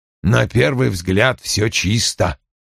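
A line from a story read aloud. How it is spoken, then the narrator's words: Muttered. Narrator (Russian): пробормотал он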